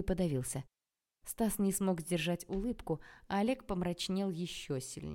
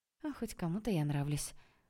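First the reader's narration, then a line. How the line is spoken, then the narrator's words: Tired, smiling. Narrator (Russian): устало улыбнулась я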